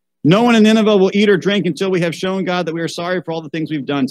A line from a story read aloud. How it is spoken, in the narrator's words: said the king